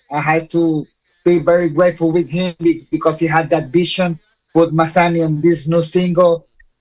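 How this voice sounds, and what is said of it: Puerto Rican accent in English. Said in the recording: “he has an accent I guess you are not too used to. So he is a Puerto Rican ... I'm a very particular accent.”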